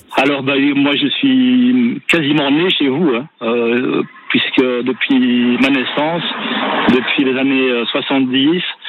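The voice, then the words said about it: Belgian French accent. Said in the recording (French): “Ça, c'est un accent, mais c'est pas un accent de chez nous, ça. ... le plus vauclusien des Belges”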